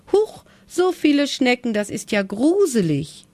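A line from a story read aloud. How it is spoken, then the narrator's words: Called out. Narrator (German): rief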